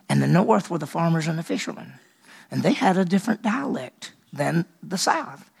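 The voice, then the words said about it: Fast-talking Southern American accent. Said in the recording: “I talk real fast ... I got a Southern accent ... I like my Southern accent.”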